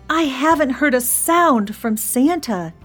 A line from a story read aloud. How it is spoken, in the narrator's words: he moaned